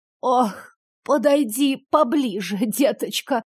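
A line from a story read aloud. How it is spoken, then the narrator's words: Asked in a dying voice. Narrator (Russian): попросила хозяйка дома умирающим голосом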